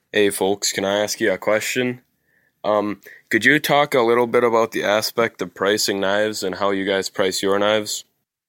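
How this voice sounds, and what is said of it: Wisconsin accent. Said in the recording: “that's a Wisconsin accent right there.”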